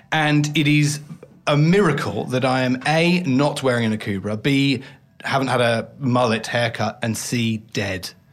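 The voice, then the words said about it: English accent. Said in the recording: “Well, just blame this damn accent... But Dan is English, isn't he?... because it's my accent... judged heavily for my accent”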